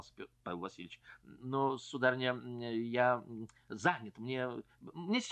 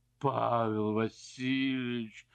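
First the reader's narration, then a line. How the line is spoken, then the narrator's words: Tearful moan. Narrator (Russian): простонала барыня, и глаза ее наполнились слезами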